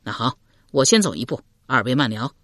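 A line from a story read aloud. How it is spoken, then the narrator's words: Laughing. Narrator (Chinese): 阮贤……笑道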